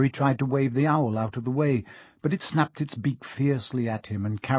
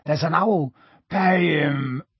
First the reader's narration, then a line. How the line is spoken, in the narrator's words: Hagrid grunted into the sofa